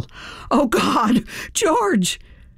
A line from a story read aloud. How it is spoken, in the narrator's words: heard Stephanie, a fierce competitor in her own right, yell